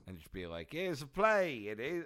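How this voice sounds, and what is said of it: Put-on old-fashioned theatrical accent. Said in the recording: “I don't know why I have this accent.”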